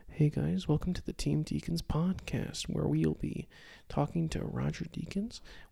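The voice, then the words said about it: Soft, hushed ASMR-style voice. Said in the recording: “ASMR to the max ... I'll do an imitation of it real quick ... you could literally fall asleep”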